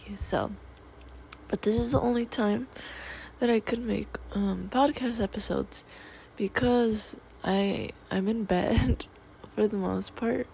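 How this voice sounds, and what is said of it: Rusty, sick-sounding voice. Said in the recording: “I'm sick ... my voice is all rusty”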